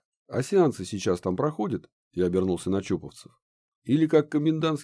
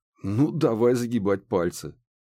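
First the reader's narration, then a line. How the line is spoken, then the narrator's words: Amused snort. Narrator (Russian): хмыкнул я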